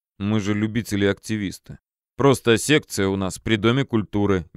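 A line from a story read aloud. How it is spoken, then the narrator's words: Forced calm. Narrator (Russian): стараясь держаться спокойно, проговорил Филин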